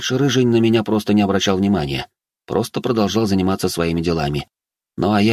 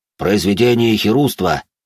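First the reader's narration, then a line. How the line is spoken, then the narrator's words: Growl. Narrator (Russian): рыкнул он тут же на меня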